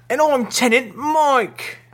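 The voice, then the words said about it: Silly put-on character voice. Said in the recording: “I'm just doing a little voice there.”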